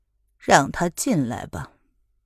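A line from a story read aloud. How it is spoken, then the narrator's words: Respectful whisper. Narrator (Chinese): 宁荣，附耳到太后的耳边，恭敬的对宣太后低声的说道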